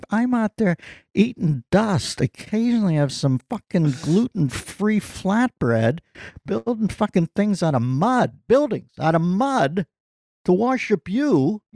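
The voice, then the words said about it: Put-on Pittsburgh accent. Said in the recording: “Yes, that's my Pittsburgh accent”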